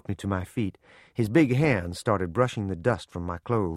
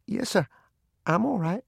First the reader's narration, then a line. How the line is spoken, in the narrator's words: In a choking voice said